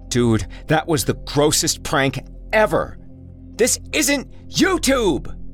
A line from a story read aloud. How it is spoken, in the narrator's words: Jesse shouted after him